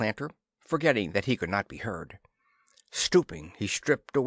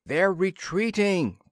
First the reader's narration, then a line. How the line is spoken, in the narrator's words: Planter yelled